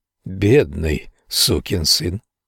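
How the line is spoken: Whisper. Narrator (Russian): прошептал Генри

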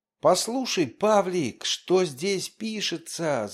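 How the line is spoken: Shout. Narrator (Russian): закричал

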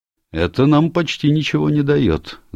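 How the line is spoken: Remark. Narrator (Russian): заметил Келси

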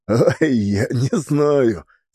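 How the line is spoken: Embarrassed laugh, old man. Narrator (Russian): смущенно засмеялся и старик

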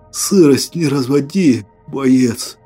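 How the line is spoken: Hoarse rasp. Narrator (Russian): прохрипел я

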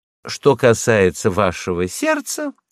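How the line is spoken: Cheerful interruption. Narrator (Russian): весело перебила она

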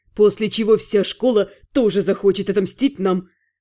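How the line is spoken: Wry snort. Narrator (Russian): хмыкнул Ас

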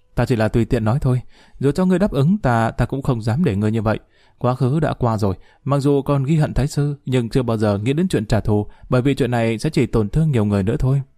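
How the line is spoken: Giggling. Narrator (Vietnamese): Lý Thanh Chiếu cười khúc khích nói

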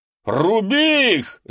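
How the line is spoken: Shouting. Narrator (Russian): закричал он своих

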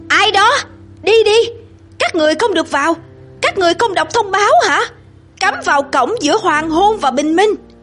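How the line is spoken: Shouting from darkness. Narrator (Vietnamese): Một giọng hét lớn trong bóng tối

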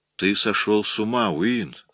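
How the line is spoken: Plain. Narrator (Russian): сказала она

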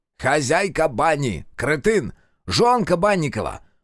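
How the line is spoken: Sharp shout. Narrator (Russian): прикрикнул на него Киловяз

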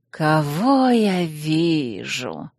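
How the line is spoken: Hoarse drawl. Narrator (Russian): хриплым сосна голосом протянула она

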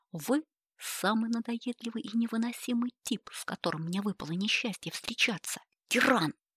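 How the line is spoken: Angry hiss. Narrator (Russian): Сердито зашипела Элеонора

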